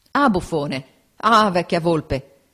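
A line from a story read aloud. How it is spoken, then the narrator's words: Crowd exclaiming. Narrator (Italian): esclamavano nel campo avversario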